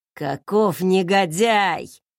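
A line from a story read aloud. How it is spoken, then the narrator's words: Grumbled. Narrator (Russian): проворчал дядька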